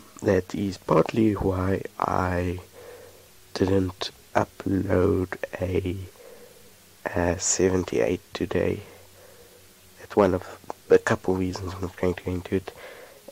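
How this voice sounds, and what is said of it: Sick-sounding voice. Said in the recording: “You can probably hear it in my voice. ... I am sick.”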